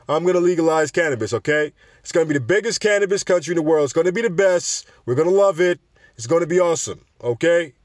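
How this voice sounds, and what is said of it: Donald Trump impression. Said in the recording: “I can't even do a Trump accent”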